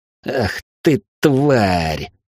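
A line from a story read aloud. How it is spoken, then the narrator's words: Wheezing, angry. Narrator (Russian): просипел он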